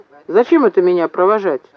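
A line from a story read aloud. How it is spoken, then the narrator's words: Indignant question. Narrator (Russian): возмущенно осведомился Кир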